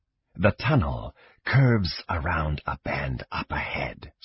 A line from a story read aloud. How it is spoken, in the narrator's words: Slith said, his voice soft